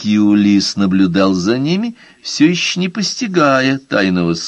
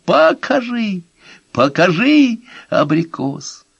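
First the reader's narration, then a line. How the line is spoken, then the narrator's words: Admiring exclamation. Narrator (Russian): Они воскликнули с восхищением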